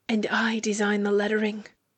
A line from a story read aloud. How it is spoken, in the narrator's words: brags Lucius, much closer, a smug whisper